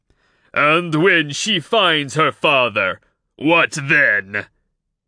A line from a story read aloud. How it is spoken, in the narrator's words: King Arvang roared